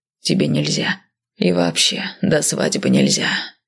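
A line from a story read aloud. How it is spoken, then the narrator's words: Sighing. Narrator (Russian): вздохнул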